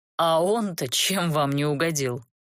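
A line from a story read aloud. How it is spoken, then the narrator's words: Sighing. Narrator (Russian): вздохнул колдун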